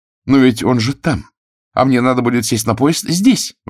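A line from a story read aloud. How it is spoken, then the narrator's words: Young lady exclaiming. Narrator (Russian): воскликнула барышня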